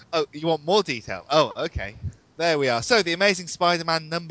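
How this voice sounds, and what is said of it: British accent. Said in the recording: “his lovely British accent”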